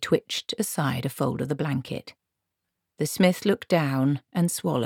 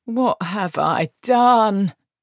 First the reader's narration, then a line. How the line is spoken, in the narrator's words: he moaned